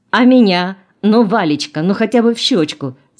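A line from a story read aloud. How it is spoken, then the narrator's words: Laughing. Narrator (Russian): смеялся Самсонов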